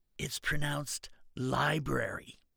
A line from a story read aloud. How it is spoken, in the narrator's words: she whispered